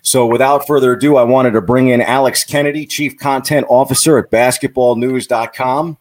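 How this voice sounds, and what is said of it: Rich radio-style speaking voice. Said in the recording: “you have an amazing voice. You have a great radio voice.”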